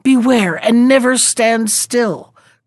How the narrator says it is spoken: called the brown horse, and more he could not say, for the water was choking him

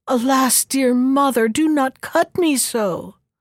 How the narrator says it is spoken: she heard a voice moaning

